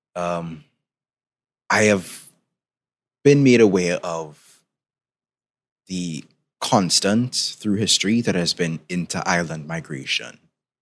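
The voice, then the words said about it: Caribbean Trinidadian accent. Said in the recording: “in case you can tell by my accent, I'm from the Caribbean, particularly from Trinidad and Tobago”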